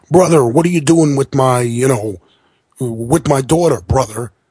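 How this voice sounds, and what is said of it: Hulk Hogan impression. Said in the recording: “I can't do a good Hogan right now.”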